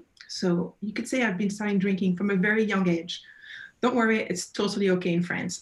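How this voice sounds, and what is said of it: French accent. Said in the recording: “As you can probably pick up from my accent, I'm originally from France, Burgundy.”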